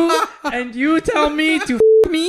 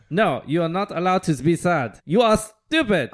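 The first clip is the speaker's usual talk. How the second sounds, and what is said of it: Put-on German accent. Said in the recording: “You gotta do it in a German accent ... So you're the German recipient”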